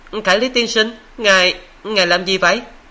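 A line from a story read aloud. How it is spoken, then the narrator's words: Scream. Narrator (Vietnamese): tiếng thét của Đình Đình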